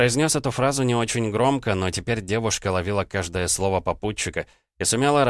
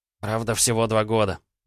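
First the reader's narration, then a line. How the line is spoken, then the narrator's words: Sighing. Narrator (Russian): вздохнул Илья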